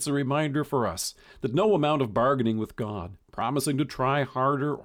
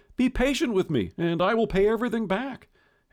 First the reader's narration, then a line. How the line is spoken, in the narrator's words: the wicked servant plead